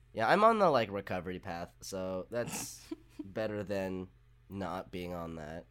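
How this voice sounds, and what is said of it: Hoarse, strained voice. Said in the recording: “my voice is a little bit shot because I'm sick”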